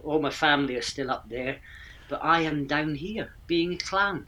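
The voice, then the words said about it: Mixed Scottish Aberdeen accent. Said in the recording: “that's not a Gloucestershire, England accent, is it? ... It's not, no, it's a mishmash. Originally, it's an Aberdeen accent.”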